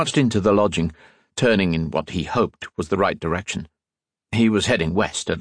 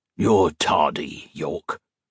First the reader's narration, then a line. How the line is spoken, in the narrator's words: the man grumbled